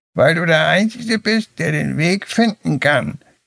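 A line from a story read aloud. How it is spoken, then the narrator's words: Croaking, strangely wise voice. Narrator (German): krächzte die Krähe mit einer Stimme, die seltsam weise klang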